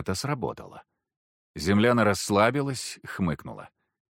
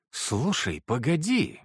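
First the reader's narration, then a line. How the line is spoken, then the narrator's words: Sudden exclamation. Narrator (Russian): воскликнула вдруг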